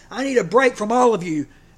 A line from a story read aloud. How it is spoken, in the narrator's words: said my toddler shouted